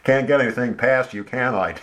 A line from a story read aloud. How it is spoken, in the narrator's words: Dan laughed